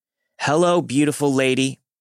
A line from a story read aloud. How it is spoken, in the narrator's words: He again shouted